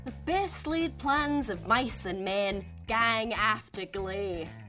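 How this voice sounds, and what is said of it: Put-on Scottish Highlands accent. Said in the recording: “up to the very north, to the Highlands of Scotland. Think of Amy Pond from Doctor Who, or maybe Sir Robert Burns.”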